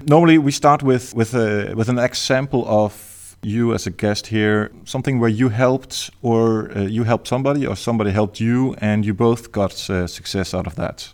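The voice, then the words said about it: Danish-accented English. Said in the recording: “the really weird accent is uh, is Danish”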